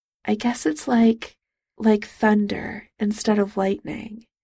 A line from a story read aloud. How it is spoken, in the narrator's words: Charles murmured